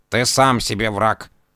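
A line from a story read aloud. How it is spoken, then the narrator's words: Grumbling cat. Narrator (Russian): проворчал кот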